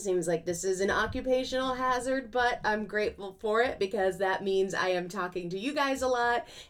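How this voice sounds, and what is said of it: Hoarse, strained voice. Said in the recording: “my voice is going a little bit again”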